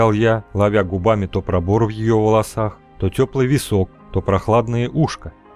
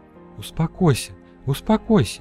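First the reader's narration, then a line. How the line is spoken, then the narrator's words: Continued whispering. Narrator (Russian): Продолжала шептать Фера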